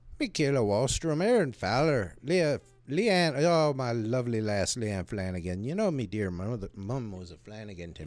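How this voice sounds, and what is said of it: Put-on Irish accent. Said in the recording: “he's using his Irish accent.”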